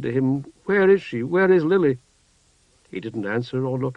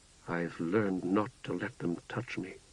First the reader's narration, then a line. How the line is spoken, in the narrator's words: said in a low voice